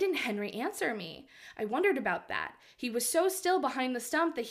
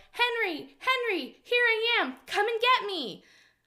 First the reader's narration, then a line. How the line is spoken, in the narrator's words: yelled